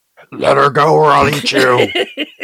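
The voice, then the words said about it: Demon voice. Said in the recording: “please show us your demon voice”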